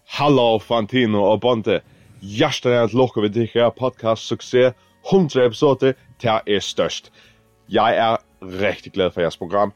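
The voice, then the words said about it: Faroese-accented Danish. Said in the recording (Danish): “Først så tænkte vi, hvad er det for en accent? ... Færøerne”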